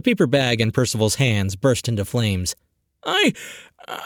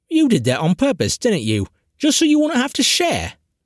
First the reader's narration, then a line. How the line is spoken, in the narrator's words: Winfred scoffed